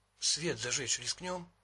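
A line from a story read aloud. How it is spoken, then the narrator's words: Whisper. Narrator (Russian): прошептала Китти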